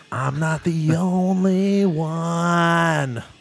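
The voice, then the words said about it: Nasal sung imitation of another singer. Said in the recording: “That's a pretty good impression... It's hard to sing like Kurt... he kind of has that nasally... somewhat congested while I'm singing”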